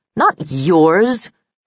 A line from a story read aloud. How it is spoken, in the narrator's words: sneered